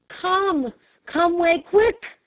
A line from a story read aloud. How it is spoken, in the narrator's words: cried, hurrying off to hide the emotion which he could not crush down